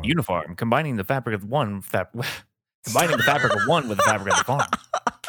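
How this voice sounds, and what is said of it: Radio announcer voice. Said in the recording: “Do you have a radio voice ... the voice is great”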